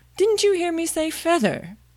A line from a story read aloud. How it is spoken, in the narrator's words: the sheep cried angrily